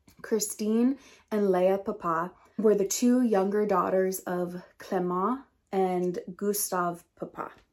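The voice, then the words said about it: American English accent. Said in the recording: “there's gonna be the American English accent because I'm American”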